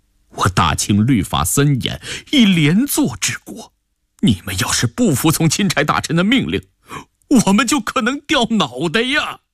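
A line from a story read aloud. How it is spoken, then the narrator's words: Pleading. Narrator (Chinese): 吴秉鉴几乎是在哀求了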